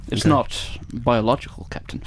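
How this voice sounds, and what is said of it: Leonard Nimoy impression. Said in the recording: “my Leonard Nimoy impression”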